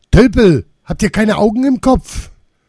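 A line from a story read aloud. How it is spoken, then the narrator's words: Old woman scolding loudly. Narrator (German): Laut schimpfend die Alte mit schmerzverzerrtem Gesicht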